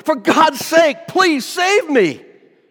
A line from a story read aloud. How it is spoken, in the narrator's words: he shouted